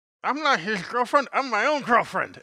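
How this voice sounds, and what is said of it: Weird kid character voice. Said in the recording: “The weird kid ... do the voice ... I got the voice now.”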